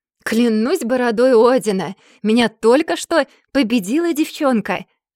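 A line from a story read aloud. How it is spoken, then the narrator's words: Yelling after laughter. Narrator (Russian): Отхохотавшись, заорал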